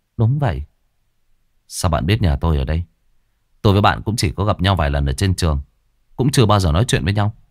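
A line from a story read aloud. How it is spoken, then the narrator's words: Gentle smile. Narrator (Vietnamese): Hương mỉm cười nhẹ nhàng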